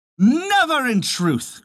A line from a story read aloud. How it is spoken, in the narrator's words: cried they all